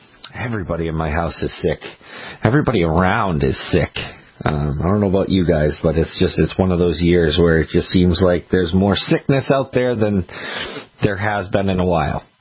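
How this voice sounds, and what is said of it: Fading, sick-sounding voice. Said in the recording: “This voice, this feeling of being sick is not doing well ... my voice is starting to fade. Need a little bit of rest for it.”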